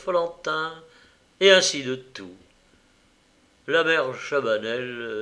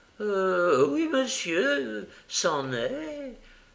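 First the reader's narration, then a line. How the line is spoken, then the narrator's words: Groaning. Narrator (French): avait gémi Madame Chabanel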